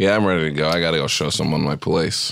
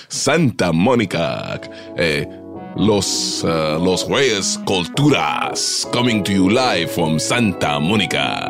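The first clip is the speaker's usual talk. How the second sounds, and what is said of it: Radio DJ announcer voice. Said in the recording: “My radio DJ voice.”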